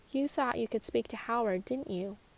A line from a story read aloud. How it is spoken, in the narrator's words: Angela kindly asked